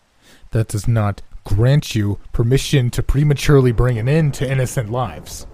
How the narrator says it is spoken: yelled as though I were a father showing heavy disappointment

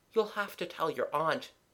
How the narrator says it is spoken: said Kathleen kindly

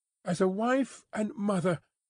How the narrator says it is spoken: cried Lucy, most earnestly

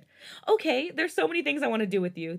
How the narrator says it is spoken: the younger excitedly exclaimed

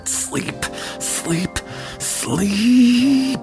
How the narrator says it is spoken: I whispered

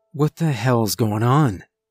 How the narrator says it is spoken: I breathed

